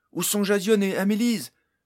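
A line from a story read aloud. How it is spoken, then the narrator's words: Shouted, trying to stay calm. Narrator (French): lui cria Barnes qui faisait son possible pour garder la tête froide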